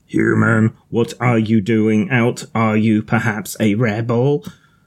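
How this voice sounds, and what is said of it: Dalek-style robot voice. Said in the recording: “my robot voice was that of a Dalek.”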